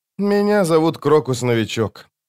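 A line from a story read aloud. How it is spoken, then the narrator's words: Resigned sigh. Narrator (Russian): он признал поражение и вздохнул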